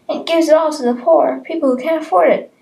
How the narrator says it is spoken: yelled the little boy

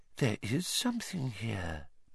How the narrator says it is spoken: Professor Trelawney whispered

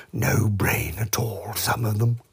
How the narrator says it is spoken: said Eeyore, and he murmured to himself

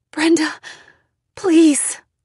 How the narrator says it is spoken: I pleaded

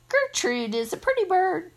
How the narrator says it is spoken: a real screechy voice said

